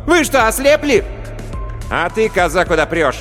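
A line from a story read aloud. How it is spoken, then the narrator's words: Yelling woman. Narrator (Russian): Переводчица заорала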